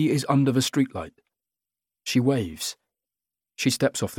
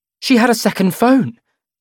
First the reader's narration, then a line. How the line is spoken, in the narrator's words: exclaims Lenny